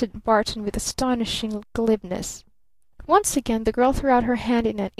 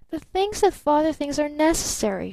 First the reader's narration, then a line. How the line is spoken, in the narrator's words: she exclaimed softly